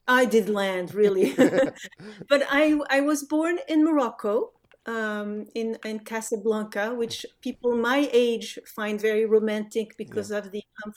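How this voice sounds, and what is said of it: Slight foreign accent. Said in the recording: “if folks haven't picked up on your voice, there is a little bit of an accent there”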